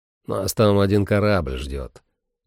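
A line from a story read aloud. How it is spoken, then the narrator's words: Grumbling. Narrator (Russian): проворчал Сэм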